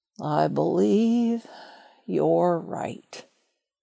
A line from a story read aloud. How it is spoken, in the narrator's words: he said, with a long, sad sigh